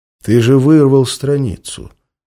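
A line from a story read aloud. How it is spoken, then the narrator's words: Very calm statement. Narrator (Russian): как-то уж очень спокойно заявил он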